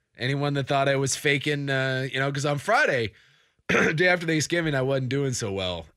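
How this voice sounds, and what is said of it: Rough, unwell-sounding voice. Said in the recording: “you sound terrible. ... It's a little rough. ... A little rough right now.”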